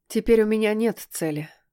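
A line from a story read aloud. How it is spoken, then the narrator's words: Calm. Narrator (Russian): спокойно сказала она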